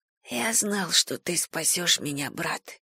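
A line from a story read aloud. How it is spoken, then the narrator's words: Weak bewildered young man's whisper. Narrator (Russian): прошептал слабый, ничего не понимающий юноша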